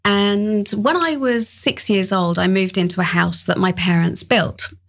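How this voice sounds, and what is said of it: English accent. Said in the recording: “you probably tell from the accent, I grew up in England”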